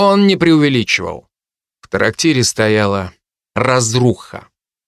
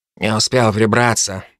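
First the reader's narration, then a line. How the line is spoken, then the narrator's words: Old man grumbling. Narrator (Russian): буркнул старик нам в спины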